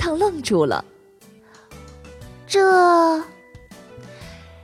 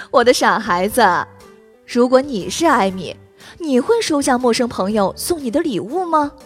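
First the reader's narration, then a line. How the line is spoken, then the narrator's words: Laughing. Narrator (Chinese): 妈妈笑了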